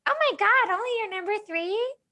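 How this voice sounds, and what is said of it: Imitates another person's voice. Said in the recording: “my Wyatt impression”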